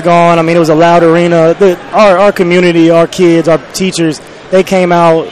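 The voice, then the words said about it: Hoarse, strained voice. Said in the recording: “My voice is gone. ... My voice is”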